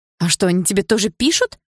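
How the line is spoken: Exclamation. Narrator (Russian): воскликнула я

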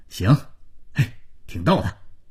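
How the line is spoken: Light laugh. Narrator (Chinese): 大勇笑了笑

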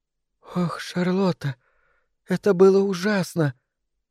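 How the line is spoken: Tearful quiet sobbing. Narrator (Russian): сморгнула слезы и принялась тихонько всхлипывать

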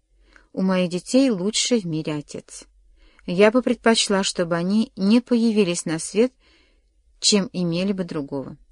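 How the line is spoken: Calm. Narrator (Russian): спокойно сказала

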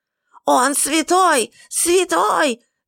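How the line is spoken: Wild scream. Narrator (Russian): дико завопила Лависа

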